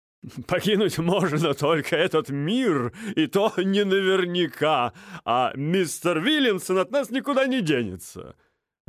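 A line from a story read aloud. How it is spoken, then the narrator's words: Laughing into mustache. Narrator (Russian): рассмеялся в пышные усы Джордж Бонс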